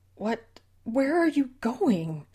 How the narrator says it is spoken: Susan pleaded for an explanation

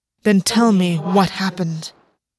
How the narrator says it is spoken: August said, his voice hardening on his compulsion

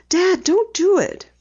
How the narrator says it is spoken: Penny pleaded, suddenly frightened lest her father face danger

